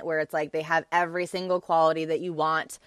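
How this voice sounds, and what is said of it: Robotic voice. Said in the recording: “I'm going into like robot voice.”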